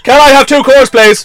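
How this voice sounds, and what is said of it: Shouting loudly. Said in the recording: “I want to shout for the rest of my life. ... stop shouting.”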